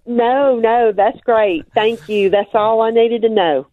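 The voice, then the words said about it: Congested Mississippi Southern accent. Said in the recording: “I love your accent... Alabama? No... Mississippi, but Mississippi. This is a congested Mississippi accent. I'm sick today.”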